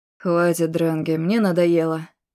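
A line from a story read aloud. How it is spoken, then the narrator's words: Weary. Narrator (Russian): устало говорит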